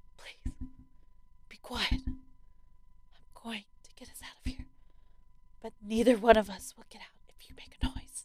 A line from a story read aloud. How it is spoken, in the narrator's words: whispering to her